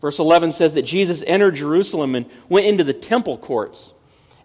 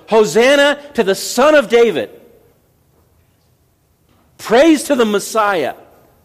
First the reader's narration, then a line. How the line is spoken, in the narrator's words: Matthew says that they shouted